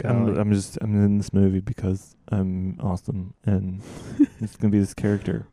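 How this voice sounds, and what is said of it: Impression of an actor's indifferent tone. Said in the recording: “That's a great impression.”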